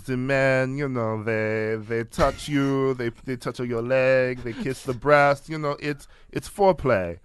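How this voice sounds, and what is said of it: Exaggerated French accent, Catherine Deneuve. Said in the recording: “I don't know what accent that was. ... Like, famous cartoon skunk, Catherine Deneuve.”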